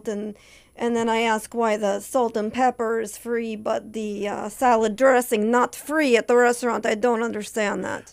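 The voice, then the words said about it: Natasha Katowski character voice. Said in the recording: “you want to hear Natasha Katowski ... I do this voice ... when I talk like this”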